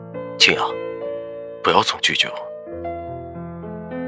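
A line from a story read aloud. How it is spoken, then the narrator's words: Low deep voice. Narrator (Chinese): 他沉声道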